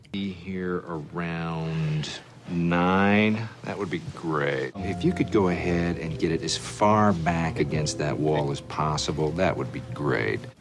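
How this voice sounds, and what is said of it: Low creaky vocal fry. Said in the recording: “That's vocal fry. ... It's dropping down.”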